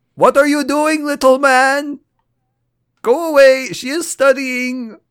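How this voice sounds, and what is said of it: Put-on accent for a character. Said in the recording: “What is this accent you gave her?”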